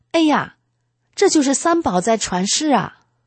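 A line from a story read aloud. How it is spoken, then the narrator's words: Involuntary exclamation. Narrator (Chinese): 我不自觉的喊了一声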